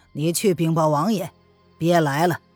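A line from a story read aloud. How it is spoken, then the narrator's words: Low, grave voice. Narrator (Chinese): 罗晨沉声的道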